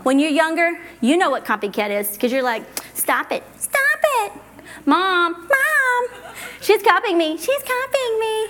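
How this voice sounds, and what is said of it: High-pitched, whiny child voice. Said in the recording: “that high voice, that was pretty annoying”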